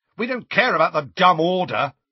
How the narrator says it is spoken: shouted Fred

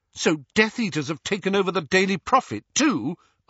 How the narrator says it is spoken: asked Hermione furiously

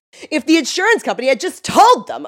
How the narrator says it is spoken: Olivia screams

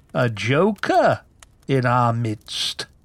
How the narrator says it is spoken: chuckled BK

